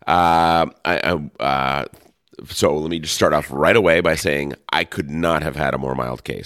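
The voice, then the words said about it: Deeper, bassier voice from illness. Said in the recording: “my voice is a little deeper, a little more bassier than usual. And that is because I am on day 4 of my COVID experience.”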